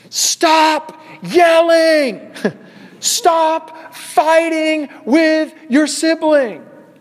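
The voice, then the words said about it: Screaming, shouting angrily. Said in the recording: “scream back at them”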